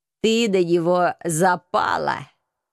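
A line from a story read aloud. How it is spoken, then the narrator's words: Mocking snort. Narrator (Russian): Насмешливо фыркнул агент 013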